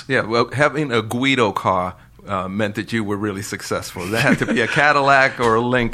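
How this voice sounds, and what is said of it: New York accent, dropped Rs. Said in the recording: “you have not lost your New York accent ... There's no R.”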